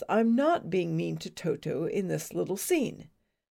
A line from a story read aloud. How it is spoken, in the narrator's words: The director calmly explains